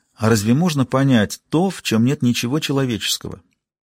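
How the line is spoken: Calm agreement. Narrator (Russian): Он спокойно согласился

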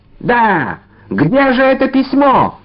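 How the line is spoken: Shout. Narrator (Russian): закричал Д'Артаньян

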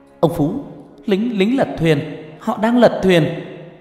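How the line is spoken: Shout. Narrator (Vietnamese): Tôi hét lên một tiếng

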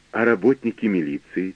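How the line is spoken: Quiet question. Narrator (Russian): тихо спросила

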